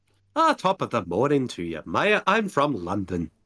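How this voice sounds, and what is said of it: Put-on Irish accent. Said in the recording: “that sounds more like Irish.”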